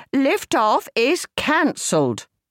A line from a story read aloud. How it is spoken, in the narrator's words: Angela called out in English